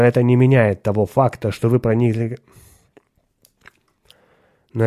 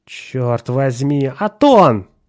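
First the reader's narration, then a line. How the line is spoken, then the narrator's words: Wincing exclamation. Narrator (Russian): поморщившись, воскликнул Ширин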